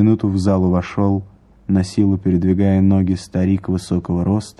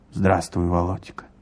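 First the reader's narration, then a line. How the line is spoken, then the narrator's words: Weak voice. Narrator (Russian): сказал он слабым голосом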